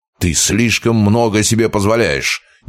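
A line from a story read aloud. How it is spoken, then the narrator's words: Exasperated bark. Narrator (Russian): Не выдержав, рявкнул он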